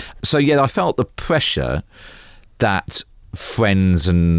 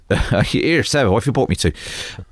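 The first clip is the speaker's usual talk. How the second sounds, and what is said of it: Put-on rural Somerset accent. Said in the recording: “I'm allowed to do the accent.”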